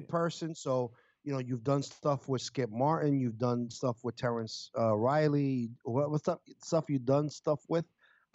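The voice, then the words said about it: Slurred speech. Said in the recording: “I'm slurring my speech right now.”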